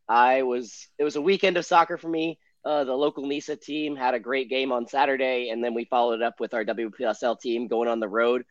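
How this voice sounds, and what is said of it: Hoarse voice. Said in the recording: “I apologize for my voice being a little bit out today... it's left me a little hoarse today.”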